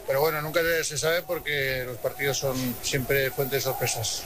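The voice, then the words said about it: Strong Aragonese accent. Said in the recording (Spanish): “me ha salido acento mañito ... Pero mucho, bastante”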